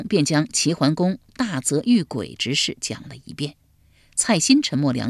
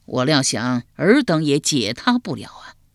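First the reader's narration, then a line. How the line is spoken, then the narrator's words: Sighing. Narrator (Chinese): 管仲叹了口气道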